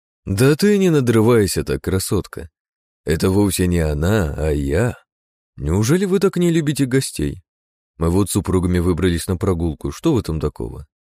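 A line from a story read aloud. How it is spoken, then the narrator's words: Flat, muffled, cheer gone. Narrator (Russian): Глухо произнес Пал, а все его напускное веселье как рукой сняло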